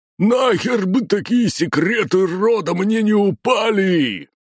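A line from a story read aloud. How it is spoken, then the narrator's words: Yelling into ear. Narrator (Russian): орал Батуми мне в ухо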